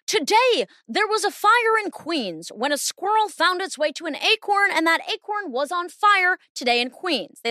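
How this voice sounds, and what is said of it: Mock newscaster delivery. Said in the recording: “I start talking like a newscaster. Why do newscasters talk like that?”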